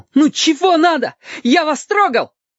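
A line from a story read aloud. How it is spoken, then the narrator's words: Shouted. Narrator (Russian): крикнул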